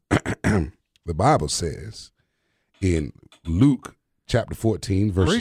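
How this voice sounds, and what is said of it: Deeper voice, put-on southern accent. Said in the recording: “Your voice got deeper. Somehow you had a southern accent. ... How's my southern accent? ... That was actually really good.”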